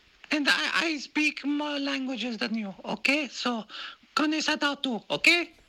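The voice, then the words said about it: Strong Latina accent. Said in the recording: “in her big Latina accent”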